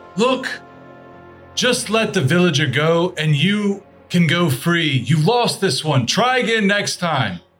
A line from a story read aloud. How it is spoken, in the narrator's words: he's going to yell, and he's going to say